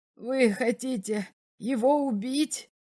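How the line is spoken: Exclaiming. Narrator (Russian): воскликнул следователь

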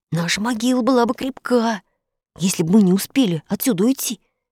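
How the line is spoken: Frightened whisper. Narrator (Russian): Испуганно прошептал Фред

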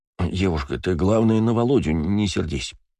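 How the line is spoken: Mumbling. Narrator (Russian): забормотал он

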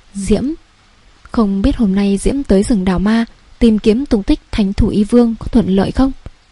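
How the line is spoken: Soft gentle laughing. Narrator (Vietnamese): Thượng quan Ngưng Nguyệt không tự chủ được khẽ cười ôn nhu nói

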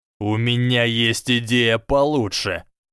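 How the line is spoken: Hissing. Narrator (Russian): прошипел крупный слизеринец

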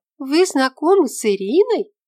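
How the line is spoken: Exclaimed. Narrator (Russian): воскликнула Рима

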